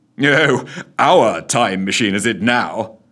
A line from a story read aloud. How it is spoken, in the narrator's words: chuckled Scrooge to himself with a part rueful, part sozzled smile